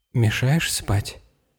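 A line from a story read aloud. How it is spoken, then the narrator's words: Sleepy mumble. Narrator (Russian): сонно пробормотала Анна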